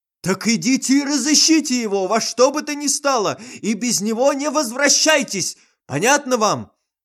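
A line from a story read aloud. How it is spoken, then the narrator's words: Terrifying shout. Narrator (Russian): закричал страшным голосом директор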